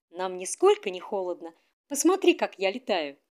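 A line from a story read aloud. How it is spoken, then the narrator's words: Laughing. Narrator (Russian): засмеялась снежинка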